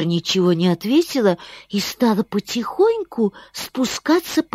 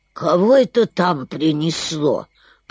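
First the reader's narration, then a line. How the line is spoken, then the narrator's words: Grumbling heron. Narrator (Russian): проворчала цапля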